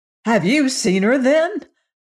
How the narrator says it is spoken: the straw man eagerly asked

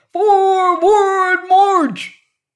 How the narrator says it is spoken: the captain screamed to the private

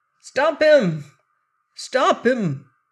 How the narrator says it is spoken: cried a voice from the other side of the street

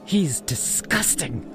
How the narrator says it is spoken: she hissed, her voice barely a whisper

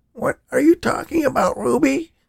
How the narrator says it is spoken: Danny gasped

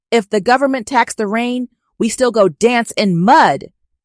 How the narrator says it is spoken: bellows

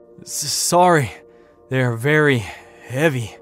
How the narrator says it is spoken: he gasped, pausing to take a breath

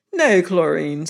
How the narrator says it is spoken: said Sir Paul more cheerfully

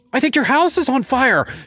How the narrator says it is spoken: she screamed

